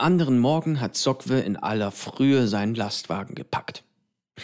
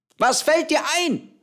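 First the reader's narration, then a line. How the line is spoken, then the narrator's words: Calls out. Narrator (German): ruft sie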